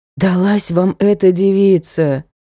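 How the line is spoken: Sighing butler. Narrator (Russian): вздохнул дворецкий

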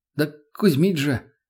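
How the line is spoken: Frightened. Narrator (Russian): испуганно

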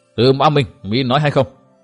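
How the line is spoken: Stern. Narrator (Vietnamese): Hội chủ nghiêm giọng nói

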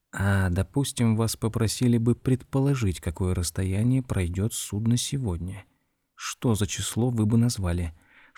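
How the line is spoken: Whispered question. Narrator (Russian): шепотом спросил мистер Боттибол

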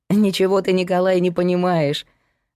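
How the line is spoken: Laughing girl. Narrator (Russian): засмеялась за его спиной девушка

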